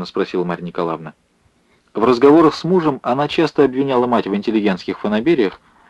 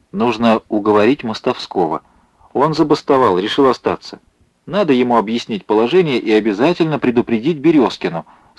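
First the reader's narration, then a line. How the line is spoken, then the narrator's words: Plain. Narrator (Russian): сказала Александра Владимировна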